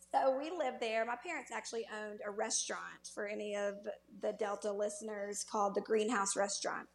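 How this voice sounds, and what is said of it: Mississippi Delta accent. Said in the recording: “I was born in the Mississippi Delta in Cleveland, Mississippi. ... you can hear the the accent still there”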